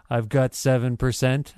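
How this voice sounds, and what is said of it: Imitates another person's voice. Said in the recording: “That was a very good Dallas impersonation.”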